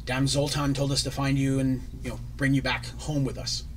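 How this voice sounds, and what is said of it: Dwarf character, weak Scottish accent. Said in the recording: “The dwarf who has a Scottish accent, as all best dwarves do. And I don't do a good Scottish accent”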